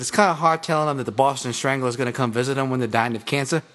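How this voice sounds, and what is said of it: Put-on Boston accent. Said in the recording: “that's a pretty good Boston accent”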